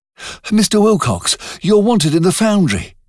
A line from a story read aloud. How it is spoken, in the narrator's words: said breathlessly